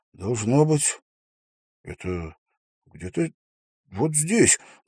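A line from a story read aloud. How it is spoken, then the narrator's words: Muttering. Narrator (Russian): пробормотал он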